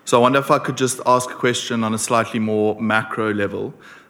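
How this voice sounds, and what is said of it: South African accent. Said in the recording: “I'm from South Africa, so that's the accent.”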